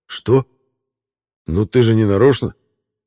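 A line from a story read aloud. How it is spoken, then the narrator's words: Very reasonable tone. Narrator (Russian): Предельно рассудительным тоном ответил голова татуха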